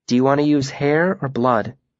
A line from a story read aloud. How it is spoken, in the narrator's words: she asked softly